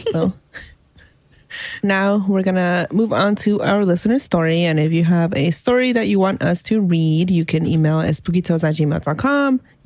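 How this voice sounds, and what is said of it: Worn-out, strained voice. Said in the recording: “my voice is done. I've been sick. I'm a little better, but my voice is done.”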